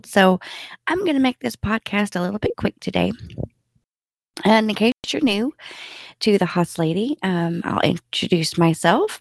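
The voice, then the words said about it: Slightly congested voice from a cold. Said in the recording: “I have a little bit of a cold”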